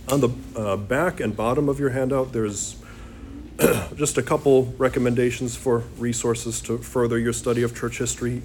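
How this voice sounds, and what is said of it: Strained, failing voice. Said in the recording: “I'm losing my voice here”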